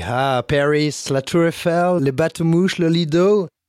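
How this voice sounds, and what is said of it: Put-on American accent in French. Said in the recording (French): “ton accent, euh, c'était American Paris”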